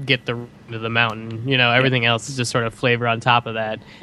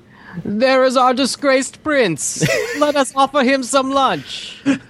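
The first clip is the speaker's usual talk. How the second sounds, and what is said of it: Impression of Asif Mandvi. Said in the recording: “Good impression of Asif Manvi”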